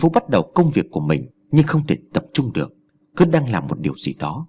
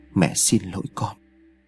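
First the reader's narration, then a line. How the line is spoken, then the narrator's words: Absent mutter. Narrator (Vietnamese): miệng lẩm bẩm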